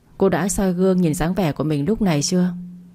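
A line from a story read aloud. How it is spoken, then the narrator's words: Sighing question. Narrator (Vietnamese): Tôi thở dài một hơi, hỏi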